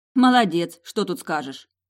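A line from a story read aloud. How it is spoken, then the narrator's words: Snorting. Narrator (Russian): фыркнула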